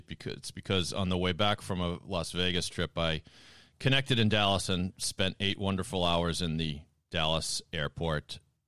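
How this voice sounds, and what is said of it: Slightly raspy voice. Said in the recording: “my voice sounds a little raspy”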